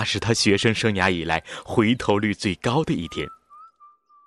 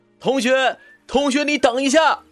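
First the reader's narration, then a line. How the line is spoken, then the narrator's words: Calling while running. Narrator (Chinese): 边跑边喊道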